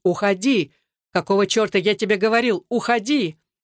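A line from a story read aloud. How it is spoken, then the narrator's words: Shouting from far below. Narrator (Russian): Александр, будучи в 50 футах под ними, закричал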